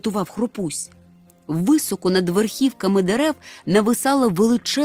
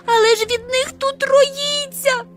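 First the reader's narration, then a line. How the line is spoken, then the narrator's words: Crying out. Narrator (Ukrainian): скрикнула Хропся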